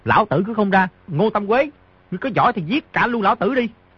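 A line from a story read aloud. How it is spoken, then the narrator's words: Moved, raised voice. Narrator (Vietnamese): Di Tiểu Bảo rất cảm động, cao giọng nói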